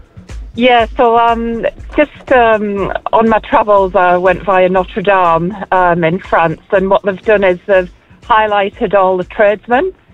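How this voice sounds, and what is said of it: Scottish accent with Yorkshire influence. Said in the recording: “Oh, great accent. ... Originally Scotland via Yorkshire.”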